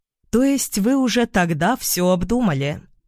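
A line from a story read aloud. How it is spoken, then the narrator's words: Plain question. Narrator (Russian): спросила я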